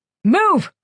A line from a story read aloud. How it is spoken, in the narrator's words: Koyich barked